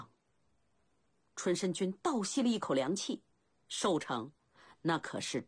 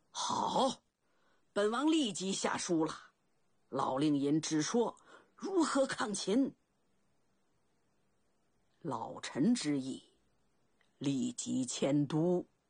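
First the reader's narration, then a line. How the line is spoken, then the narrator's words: Loud. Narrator (Chinese): 楚怀王 高声道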